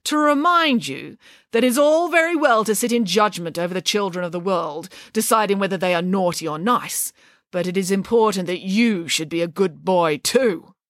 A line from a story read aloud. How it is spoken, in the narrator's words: said Nanny Piggins sternly